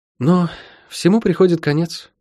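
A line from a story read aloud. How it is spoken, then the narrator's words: Sighing. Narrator (Russian): вздохнула она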